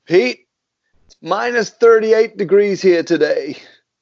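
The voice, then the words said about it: Bad put-on North American accent. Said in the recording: “I'm going to do a very bad North American accent here”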